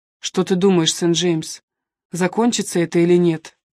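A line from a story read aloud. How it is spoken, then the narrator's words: Plain. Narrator (Russian): спросил Линли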